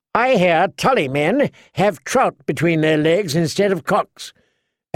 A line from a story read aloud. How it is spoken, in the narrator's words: Alex Frey called out boldly